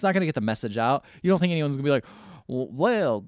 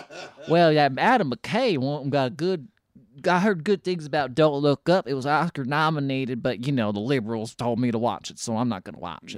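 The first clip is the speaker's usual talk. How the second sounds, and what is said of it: Put-on redneck accent. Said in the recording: “excuse me for my redneck accent, but I'm just going to do it”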